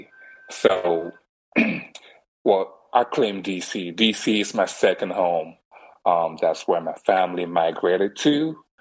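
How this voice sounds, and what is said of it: Slight accent. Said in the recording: “a slight accent”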